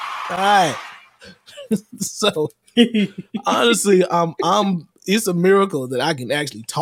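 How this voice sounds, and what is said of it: Usual voice. Nothing is said of it.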